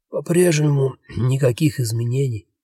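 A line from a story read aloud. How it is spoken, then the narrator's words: Hoarse with a cold. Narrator (Russian): прохрипел простуженно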